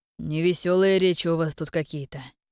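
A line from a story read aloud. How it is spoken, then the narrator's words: Wry snort. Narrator (Russian): хмыкнул Кирьян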